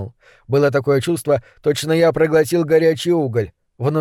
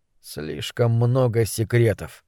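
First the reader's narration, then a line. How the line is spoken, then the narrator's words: Grumbling. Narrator (Russian): буркнул я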